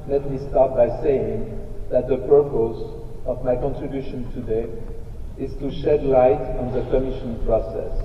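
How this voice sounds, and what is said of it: Non-native accent speaking English. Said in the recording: “My English is not very good... my accent is not very well”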